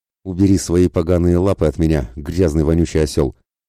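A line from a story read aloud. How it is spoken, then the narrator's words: Contemptuous, indignant through teeth. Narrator (Russian): процедила она презрительно, сохватившим ее праведным негодованием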